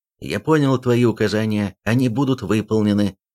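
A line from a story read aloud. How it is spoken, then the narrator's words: Sharp. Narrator (Russian): Он резко сказал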